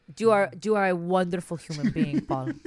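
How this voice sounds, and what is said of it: Imitates mother's accent. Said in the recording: “Can I do my mom's accent?”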